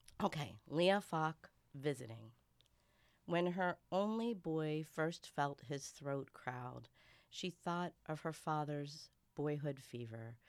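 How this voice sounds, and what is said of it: Congested voice from a cold. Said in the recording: “I'm going to read this despite my cold... I have a cold, but you probably can tell that I have a cold.”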